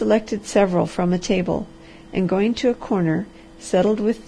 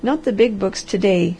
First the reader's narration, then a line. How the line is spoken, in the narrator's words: laughed the harvester